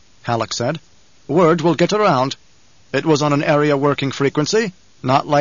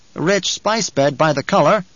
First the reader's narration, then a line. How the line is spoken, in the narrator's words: Kynes said